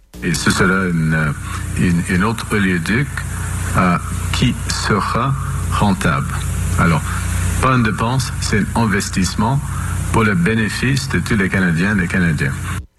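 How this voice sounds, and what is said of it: Slightly broken accent in French. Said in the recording (French): “Mark Carney qui a un accent un peu cassé”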